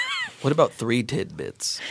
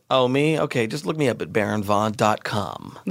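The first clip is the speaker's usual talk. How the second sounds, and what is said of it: Announcer-style radio voice. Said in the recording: “That's my radio voice.”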